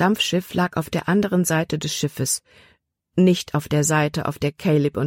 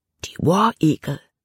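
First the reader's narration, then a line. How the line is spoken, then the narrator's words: Whispering. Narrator (German): flüsterte Jordan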